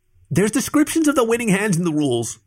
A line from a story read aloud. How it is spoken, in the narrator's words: the possum snapped